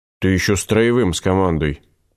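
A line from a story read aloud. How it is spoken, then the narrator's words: Grumbling discontented fat man. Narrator (Russian): буркнул вечно всем недовольный толстяк, которого все за глаза звали Винни-Пухом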